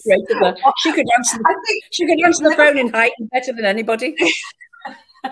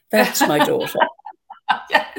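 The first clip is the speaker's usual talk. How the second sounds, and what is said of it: Posh upper-class English accent. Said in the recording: “the Liverpool accent straight out the window. Suddenly my mother's from Eton”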